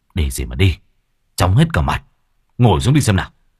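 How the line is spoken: Stern gruff voice. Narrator (Vietnamese): chú Đông gằn giọng

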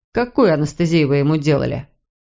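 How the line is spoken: Even voice, suppressed indignation. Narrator (Russian): Кэтрин с трудом поборола вспыхнувшее возмущение и ровным голосом произнесла

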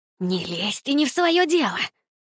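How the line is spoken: Hissed. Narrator (Russian): прошипела она

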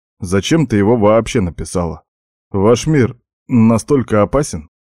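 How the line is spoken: Plain. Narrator (Russian): спросил я

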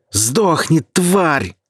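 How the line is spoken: Furious yelling. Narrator (Russian): заорал я

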